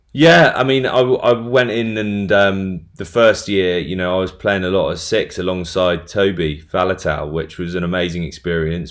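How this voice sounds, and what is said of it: Posh English accent. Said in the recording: “my accent being reasonably posh and English”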